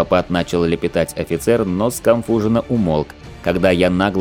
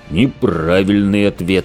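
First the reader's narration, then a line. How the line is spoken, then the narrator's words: Menacing growl. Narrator (Russian): прорычал возникший позади него бычара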